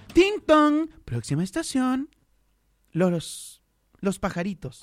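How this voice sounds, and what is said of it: Imitates subway station announcer voice. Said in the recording (Spanish): “tu voz en el metro ... Yo sirvo para hacer la voz del”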